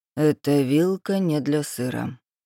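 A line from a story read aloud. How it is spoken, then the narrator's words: Even neutral tone. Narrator (Russian): оборонил Рейнер ровным тоном, в котором не было ни насмешки, ни поучения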